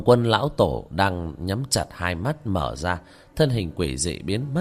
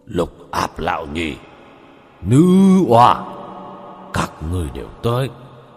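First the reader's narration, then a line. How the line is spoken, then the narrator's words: Hoarse icy sneering voice. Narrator (Vietnamese): Khóe miệng của hắn chứa đựng một nụ cười đến buồn nôn, âm thanh khàn khàn mà lạnh giá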